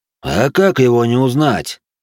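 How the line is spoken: Weary forced sigh. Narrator (Russian): вымученно вздохнул

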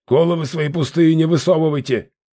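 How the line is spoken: Barking nobleman. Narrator (Russian): рявкнул дворянин

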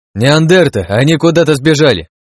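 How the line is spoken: Shouted reply. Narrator (Russian): крикнул я в ответ

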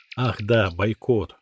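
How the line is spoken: Sighing. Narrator (Russian): Я вздохнул

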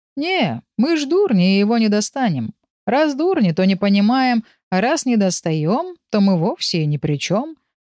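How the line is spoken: Mocking. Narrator (Russian): насмешливо ответил Урс

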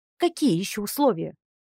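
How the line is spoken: Snapped with hatred. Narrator (Russian): огрызнулась черноволосая красавица, в глазах которой стояла ненависть

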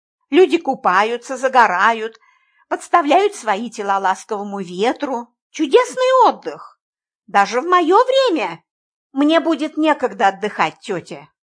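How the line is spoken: Soft objection. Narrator (Russian): мягко возразил я

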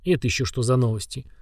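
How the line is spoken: Muttering. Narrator (Russian): пробормотал землянин

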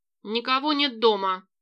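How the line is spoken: Barked. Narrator (Russian): рявкнула Барби

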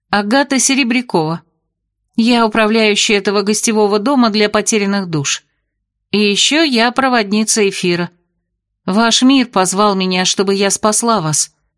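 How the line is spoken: Calm telling. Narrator (Russian): спокойно поведала я

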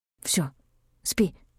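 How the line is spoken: Whisper. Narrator (Russian): прошептал

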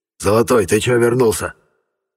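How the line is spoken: Hoarse voice asking. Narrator (Russian): спрашивает все тот же сиплый голос

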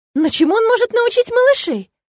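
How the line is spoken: Reproachful exclamation. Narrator (Russian): воскликнула брюнетка, с укором

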